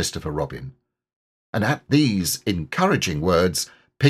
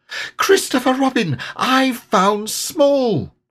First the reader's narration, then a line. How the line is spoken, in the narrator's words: cried Piglet